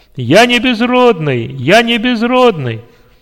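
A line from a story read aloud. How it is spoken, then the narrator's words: Joyful loud shout. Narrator (Russian): радостно и громко закричал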